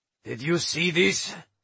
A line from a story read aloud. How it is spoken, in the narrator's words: he asked grimly